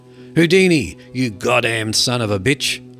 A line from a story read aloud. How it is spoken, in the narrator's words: Walter roared